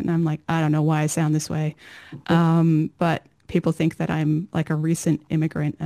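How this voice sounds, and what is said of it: American accent. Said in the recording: “my parents emigrated from America to Australia not long before I was born, so I have their accent somehow”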